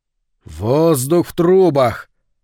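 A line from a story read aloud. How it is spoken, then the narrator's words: Loud recitation. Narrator (Russian): громко продекламировал Говард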